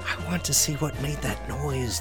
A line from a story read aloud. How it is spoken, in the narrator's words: the fox replied in a whisper